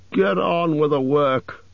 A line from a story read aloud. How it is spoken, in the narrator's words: growled the butler